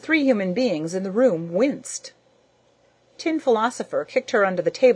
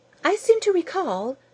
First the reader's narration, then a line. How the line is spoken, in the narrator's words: Rose Thinker chirped somewhat unkindly